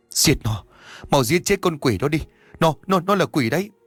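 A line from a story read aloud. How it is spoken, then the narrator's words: Trembling voice. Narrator (Vietnamese): Bà Nga nhắc lại bằng một giọng run rẩy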